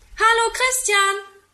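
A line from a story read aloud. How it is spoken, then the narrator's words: Calling from a window. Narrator (German): ruft er aus dem Fenster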